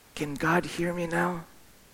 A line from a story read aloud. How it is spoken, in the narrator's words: he whispered into my mom's ear